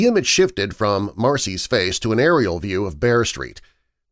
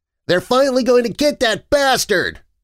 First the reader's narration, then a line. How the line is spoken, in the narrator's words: Rory blurted